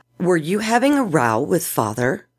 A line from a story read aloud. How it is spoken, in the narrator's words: Alian asked